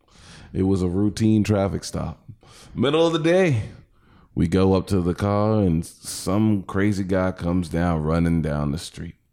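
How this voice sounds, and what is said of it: Put-on accent. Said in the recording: “What is this accent? ... He definitely changed.”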